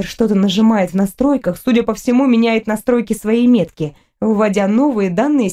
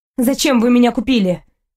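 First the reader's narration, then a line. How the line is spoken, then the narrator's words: Angry question. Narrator (Russian): спрашиваю зло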